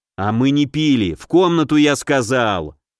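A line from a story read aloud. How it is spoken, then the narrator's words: Growling. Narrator (Russian): Зарычал я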